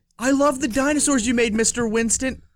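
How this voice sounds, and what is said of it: Imitates another person's voice. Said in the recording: “I don't know why I just did the Val Kilmer voice.”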